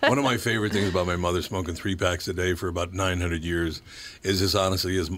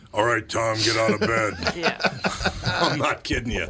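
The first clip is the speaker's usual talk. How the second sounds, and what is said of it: Imitates a heavy smoker's strong voice. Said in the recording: “a really good impression of my mother ... She had the pipes on her, man.”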